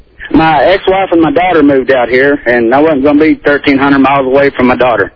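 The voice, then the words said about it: Slight Southern American accent. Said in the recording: “a bit of a Southern accent”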